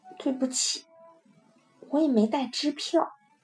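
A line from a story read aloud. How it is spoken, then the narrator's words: Helpless, quiet. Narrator (Chinese): 我实在无法可想，只好小声说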